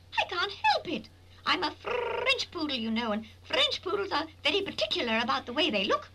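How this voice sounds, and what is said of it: Poodle character with English accent. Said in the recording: “you speak with an English accent”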